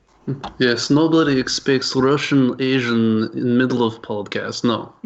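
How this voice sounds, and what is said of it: Put-on Russian accent. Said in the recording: “A Russian Asian... No one would expect that accent.”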